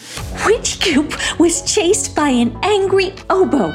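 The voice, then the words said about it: Delighted, cheerful voice. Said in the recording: “in a delighted voice.”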